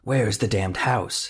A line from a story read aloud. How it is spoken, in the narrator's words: whispered